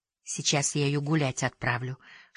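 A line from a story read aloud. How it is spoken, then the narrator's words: Beauty's whisper. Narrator (Russian): шепнула красавица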